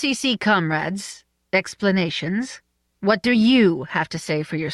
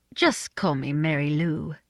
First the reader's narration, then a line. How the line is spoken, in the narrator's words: she said sweetly